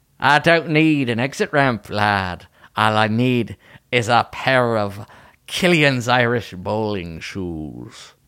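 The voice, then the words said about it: Attempted Scottish accent. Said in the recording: “how good or bad my accent was ... I can't do Scottish.”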